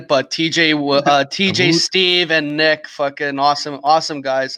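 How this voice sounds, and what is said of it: Put-on Canadian accent. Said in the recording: “a little bit nicer and in a Canadian accent.”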